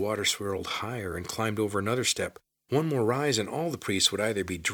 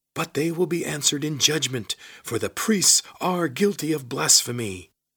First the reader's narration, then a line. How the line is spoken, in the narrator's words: shouted Lizard